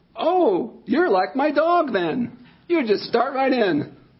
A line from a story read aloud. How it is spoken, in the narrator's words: they cheerfully answered